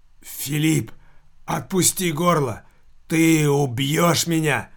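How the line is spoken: Strangled hoarse young man. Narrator (Russian): Так же сдавленно, как и только что говорил покойник, прохрипел молодой человек

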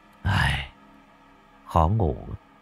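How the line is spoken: Hesitant. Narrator (Vietnamese): Cậu tần ngần nói

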